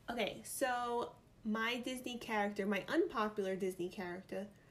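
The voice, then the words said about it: New York accent slips out. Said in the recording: “my New York accent just came out there.”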